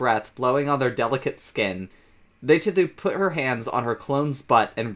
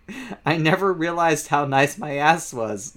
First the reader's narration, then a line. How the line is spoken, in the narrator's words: Leiteru laughed